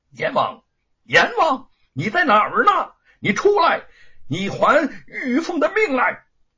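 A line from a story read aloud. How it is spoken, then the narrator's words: Angry repeated shouting. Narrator (Chinese): 他连喊数声，满腔怒火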